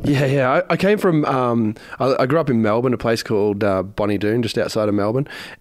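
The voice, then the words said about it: Australian accent. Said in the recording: “you've got this accent. You're from Australia”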